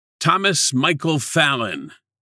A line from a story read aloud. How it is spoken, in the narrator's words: shouted over his shoulder as he trotted away, afraid